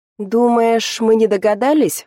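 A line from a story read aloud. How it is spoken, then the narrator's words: Father's skeptical snort. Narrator (Russian): хмыкнул отец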